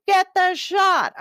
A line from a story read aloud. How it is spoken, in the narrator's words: I yelled to Louie